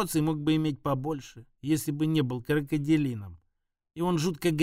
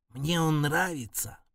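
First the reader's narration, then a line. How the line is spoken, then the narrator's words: Whisper. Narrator (Russian): прошептал Апончик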